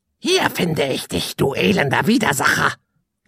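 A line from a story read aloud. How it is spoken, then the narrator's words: Croaking from above. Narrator (German): krächzte eine Stimme von oben herab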